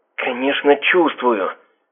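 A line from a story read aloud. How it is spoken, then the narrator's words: Hissed, young woman. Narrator (Russian): Зашипела темноокая красотка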